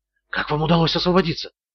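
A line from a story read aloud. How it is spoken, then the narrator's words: Woman's whispered question. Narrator (Russian): снова спросила шепотом женщина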